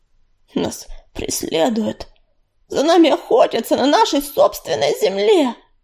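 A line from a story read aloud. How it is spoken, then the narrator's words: Hoarse rasp. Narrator (Russian): прохрипел он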